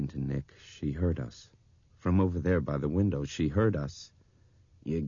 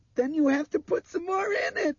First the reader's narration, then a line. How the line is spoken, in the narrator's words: Dinah screamed shrilly at him